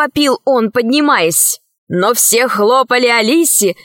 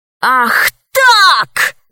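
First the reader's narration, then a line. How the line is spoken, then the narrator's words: Shouted. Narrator (Russian): закричал он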